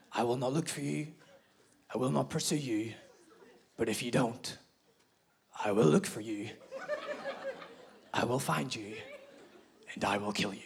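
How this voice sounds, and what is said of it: Irish-accented Liam Neeson impression. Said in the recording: “There's nothing like the Irish accent to put the fear of God into you.”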